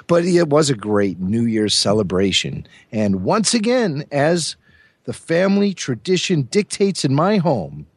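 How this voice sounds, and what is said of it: Hoarse, strained voice. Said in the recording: “The mercury drops. I start losing my voice.”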